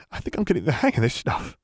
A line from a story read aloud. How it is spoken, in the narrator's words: Theo murmured in surprise